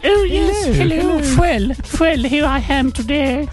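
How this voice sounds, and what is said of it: Posh, elderly woman's voice. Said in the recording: “does she type in a posh accent ... With my 99 voice”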